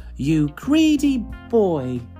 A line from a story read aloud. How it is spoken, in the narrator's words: cried Mum